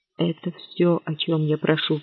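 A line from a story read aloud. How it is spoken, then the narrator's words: Whispering. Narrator (Russian): прошептал он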